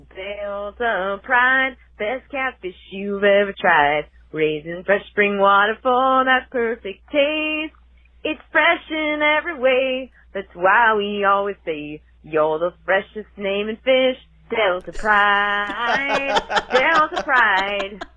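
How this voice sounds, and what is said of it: Sung jingle in Southern twang. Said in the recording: “let me give my best Southern twang”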